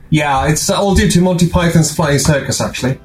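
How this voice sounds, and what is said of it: British accent. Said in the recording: “you sort of have like a British accent”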